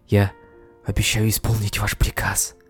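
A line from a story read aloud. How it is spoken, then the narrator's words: Whisper with barely contained joy. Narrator (Russian): едва сдерживая радость, прошептала Мунвой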